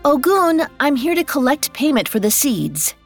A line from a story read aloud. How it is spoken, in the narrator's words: she called out